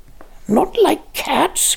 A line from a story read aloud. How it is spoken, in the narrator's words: cried the mouse in a shrill, passionate voice